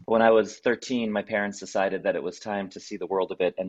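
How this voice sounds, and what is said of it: American accent. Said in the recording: “as you can tell from my accent, I am American”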